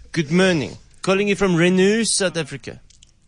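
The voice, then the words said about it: Fancy put-on accent. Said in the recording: “such a fancy accent”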